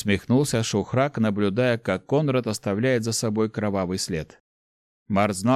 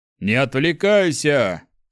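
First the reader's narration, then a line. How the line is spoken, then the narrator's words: Shout. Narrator (Russian): крикнул Борх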